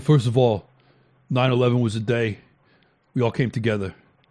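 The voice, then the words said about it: Exaggerated New York accent. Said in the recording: “I'm actually exaggerating his New York accent”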